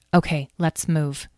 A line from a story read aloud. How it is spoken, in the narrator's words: she said quietly